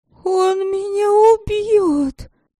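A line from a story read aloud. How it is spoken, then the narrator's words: Whimpering. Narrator (Russian): Сашка захныкала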